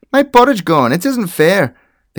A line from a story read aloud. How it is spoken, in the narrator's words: cried the baby bear